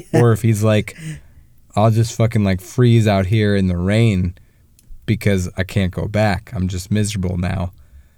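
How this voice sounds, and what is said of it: Hoarse, froggy voice. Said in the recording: “I'm losing my voice. Normally not this froggy”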